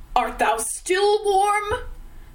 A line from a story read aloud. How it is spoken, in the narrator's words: the great voice cried out through the roar of the wind